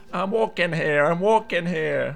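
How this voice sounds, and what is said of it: Bad put-on New York accent. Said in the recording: “has also adopted a New York accent out of the blue ... That's really bad.”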